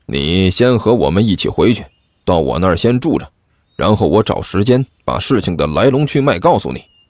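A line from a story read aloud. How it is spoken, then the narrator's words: Low voice. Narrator (Chinese): 齐剑低声说道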